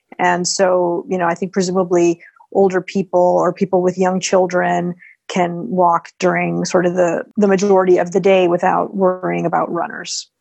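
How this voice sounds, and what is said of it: American accent. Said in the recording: “is it an American accent I hear? ... It is indeed. Yeah, I don't sound Parisian.”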